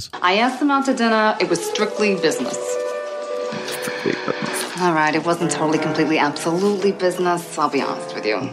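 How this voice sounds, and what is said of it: Bad put-on accent. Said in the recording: “this final accent of this lady who almost killed me ... That's just bad, dude. ... How painful is that? ... it really is bad ... I'd just love to hear her regular voice”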